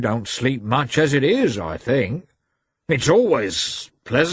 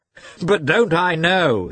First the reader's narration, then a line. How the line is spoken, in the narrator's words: added, laughing